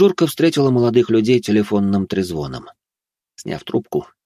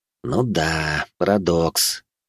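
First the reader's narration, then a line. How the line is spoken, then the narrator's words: Quiet sighing repetition. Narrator (Russian): тихонько повторил Олег, вздохнув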